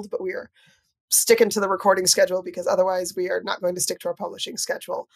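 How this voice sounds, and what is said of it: Funny-sounding voice with a cold. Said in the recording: “my voice sounds a little funny... I've got a little bit of a cold”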